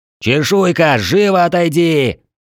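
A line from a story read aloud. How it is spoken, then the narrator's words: Throat-straining shout. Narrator (Russian): надрывая горло, закричал я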